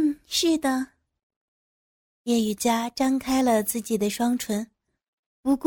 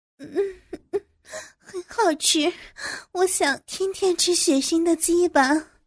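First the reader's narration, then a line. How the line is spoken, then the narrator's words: Panting reply. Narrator (Chinese): 趁着喘气的功夫回应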